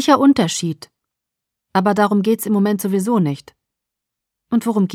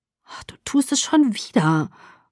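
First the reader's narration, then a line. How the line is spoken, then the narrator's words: Murmured. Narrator (German): murmelte ich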